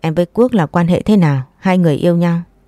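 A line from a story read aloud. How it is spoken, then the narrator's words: Cold interrogation. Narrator (Vietnamese): lạnh lùng chất vấn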